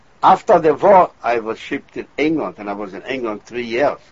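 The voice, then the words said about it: Non-native accented English. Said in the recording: “it really looks funny with my accent right now after 50 years”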